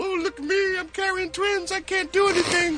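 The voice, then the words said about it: Imitates another person's voice. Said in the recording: “my Beyonce impression. Pretty good, huh?”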